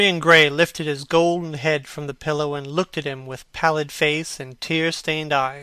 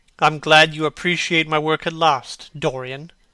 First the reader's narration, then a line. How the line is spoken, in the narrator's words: said Hallward coldly